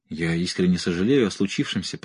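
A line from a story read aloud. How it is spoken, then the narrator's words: Muttered. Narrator (Russian): пробормотал Кирби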